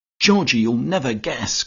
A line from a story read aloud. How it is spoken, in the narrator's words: cried Hermy